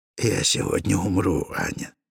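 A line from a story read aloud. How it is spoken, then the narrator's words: Said quietly. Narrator (Russian): тихо сказал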